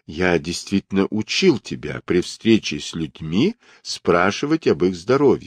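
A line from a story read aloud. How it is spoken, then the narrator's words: Calm reply. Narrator (Russian): спокойно ответил танский монах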